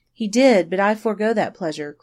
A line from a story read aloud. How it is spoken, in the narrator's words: cried the girl quickly